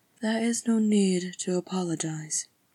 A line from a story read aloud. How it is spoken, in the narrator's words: she said in a low, smooth voice